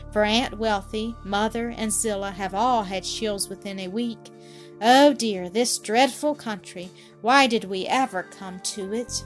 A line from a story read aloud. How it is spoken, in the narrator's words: she sighed to herself